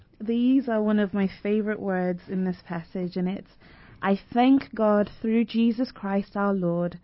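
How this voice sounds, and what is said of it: British accent. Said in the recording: “that beautiful British accent”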